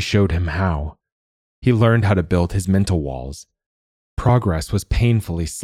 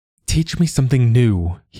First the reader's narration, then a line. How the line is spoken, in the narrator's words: he pleaded, hearing the addict's whine in his voice and not caring